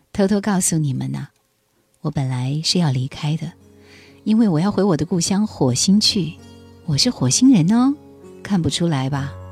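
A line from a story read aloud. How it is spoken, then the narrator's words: Cheerful laughing voice. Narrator (Chinese): 学生笑出声来，一扫面容上的忧沉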